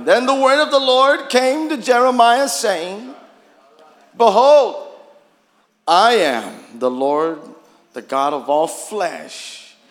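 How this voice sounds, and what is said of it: Hoarse preacher's voice. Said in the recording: “my throat is a little bit uh, hoarse”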